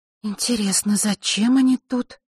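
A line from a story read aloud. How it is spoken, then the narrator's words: Muttering under breath. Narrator (Russian): пробормотала Василиса под нос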